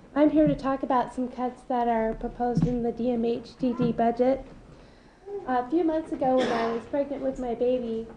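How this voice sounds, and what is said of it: Voice with a cold. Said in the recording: “I have a bit of a cold,”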